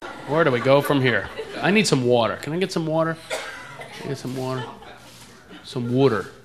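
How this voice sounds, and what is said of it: East Coast American accent. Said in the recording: “I'm from back east. That's why I talk like that. ... People make fun of my accent all the time.”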